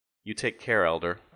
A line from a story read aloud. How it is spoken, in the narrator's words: I said